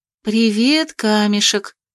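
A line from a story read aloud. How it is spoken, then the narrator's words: Gentle greeting. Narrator (Russian): поздоровалась я ласково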